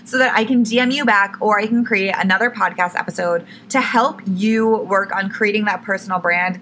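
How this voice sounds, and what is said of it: Hoarse, failing voice. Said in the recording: “losing my voice. Oh, wow. Really losing my voice”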